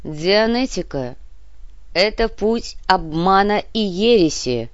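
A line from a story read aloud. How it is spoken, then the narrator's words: Clear and very loud. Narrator (Russian): Потрепанный от бесконечных повторов голос Крюгера преобразился и зазвучал чисто и очень громко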